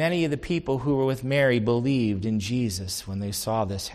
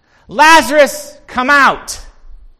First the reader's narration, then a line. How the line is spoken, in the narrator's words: He didn't have to shout